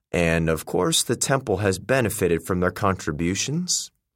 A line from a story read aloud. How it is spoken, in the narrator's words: Akitata remarked dryly